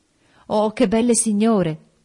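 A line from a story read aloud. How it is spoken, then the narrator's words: Exclaiming. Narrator (Italian): esclamò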